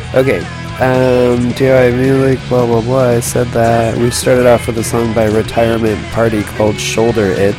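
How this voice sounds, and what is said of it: Groggy morning voice. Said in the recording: “This is my morning voice”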